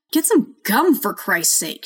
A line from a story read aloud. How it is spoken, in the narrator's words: she shouted